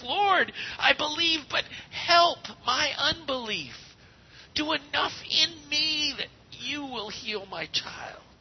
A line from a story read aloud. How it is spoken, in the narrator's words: He cried out with tears